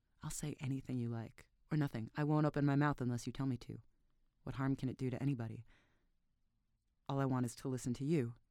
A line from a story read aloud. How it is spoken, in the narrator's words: he stammered